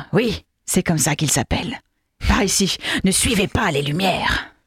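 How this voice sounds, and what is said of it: Gollum character voice. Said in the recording (French): “Quoi, c'est Gollum cette fois ... Non, c'est Gollum.”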